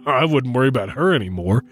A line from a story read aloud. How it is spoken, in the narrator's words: said with a chuckle